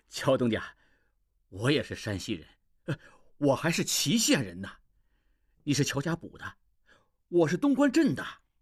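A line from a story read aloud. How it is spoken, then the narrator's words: Fawning, flattering smile. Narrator (Chinese): 军官 脸上迅速现出谄媚的笑容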